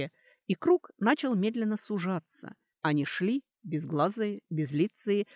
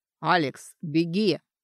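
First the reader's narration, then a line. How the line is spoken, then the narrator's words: Piercing scream over noise. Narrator (Russian): Скрик Дорана, прорезавший азартные вскрики поначалу прятавшихся и рычание черных шаманов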